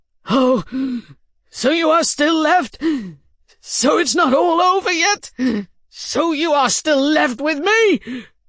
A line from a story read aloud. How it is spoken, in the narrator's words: shouted